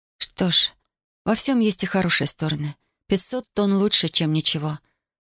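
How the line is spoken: Timid. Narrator (Russian): робко произнесла Татьяна

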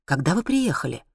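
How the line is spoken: Whispered question. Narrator (Russian): спросила я у нее шепотом

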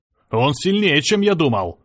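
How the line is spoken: Shouted. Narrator (Russian): крикнул Серж

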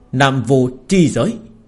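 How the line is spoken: Shrieking roar. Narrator (Vietnamese): Nam Vô Thánh Đế rít gào

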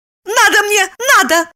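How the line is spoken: Cry while struggling. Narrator (Russian): вырываясь, скрикнула Липочка

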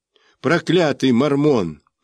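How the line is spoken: Broken-voiced outcry. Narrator (Russian): только и мог выкрикнуть я прерывающимся голосом

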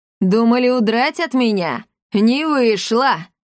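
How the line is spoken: Booming laughter. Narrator (Russian): Она расхохоталась так, что в окнах задребезжали стекла

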